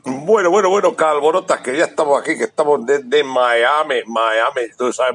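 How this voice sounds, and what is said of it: Spanish with a Miami-style accent. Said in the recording (Spanish): “Ha cogido acento, ¿eh? ... Mira qué acento”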